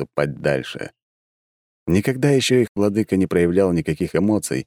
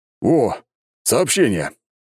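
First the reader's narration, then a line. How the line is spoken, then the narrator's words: Exclaiming. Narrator (Russian): воскликнул герцог Добролюбов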